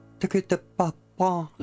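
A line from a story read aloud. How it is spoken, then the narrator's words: Little girl babbling with lisp. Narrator (Russian): залепетала девочка картавя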